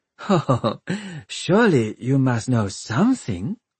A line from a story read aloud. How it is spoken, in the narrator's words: she laughed